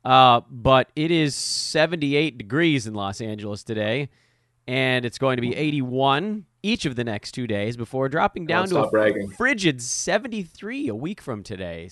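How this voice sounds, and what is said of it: Rough, sick-sounding voice. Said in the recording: “My voice is cooked. If people can't tell, I'm fighting my way through it. It's this damn cold that the kids have brought.”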